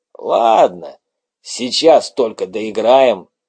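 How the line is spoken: Hoarse voice answering. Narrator (Russian): ответил сиплый

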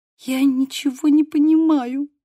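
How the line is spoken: Whimpering. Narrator (Russian): услышала я за спиной хныканье Мии

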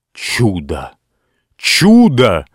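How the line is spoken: Exclamation. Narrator (Russian): воскликнул Ричард

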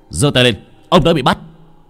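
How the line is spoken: Group shouting commands. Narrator (Vietnamese): tất cả đều chĩa súng vào bên trong mà quát lên

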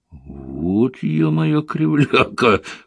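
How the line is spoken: Chuckling pig. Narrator (Russian): хохотнул свин

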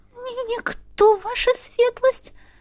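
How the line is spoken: Frightened squeak. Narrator (Russian): пропищала она

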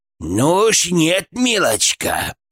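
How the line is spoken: Hissed. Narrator (Russian): прошипел Гфырк

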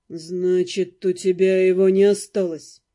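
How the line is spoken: Forced calm, anger showing. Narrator (Russian): Дамиан по-прежнему стремится говорить спокойно, но теперь в его голосе слышится злость

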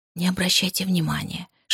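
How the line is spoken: Whisper. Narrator (Russian): шепнула мисс Харкарт

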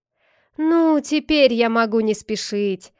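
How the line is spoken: Relieved sigh. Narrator (Russian): облегченно вздохнул отец Тук

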